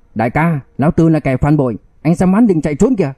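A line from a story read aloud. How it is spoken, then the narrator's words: Loud shout. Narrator (Vietnamese): Mộc Trần hét lớn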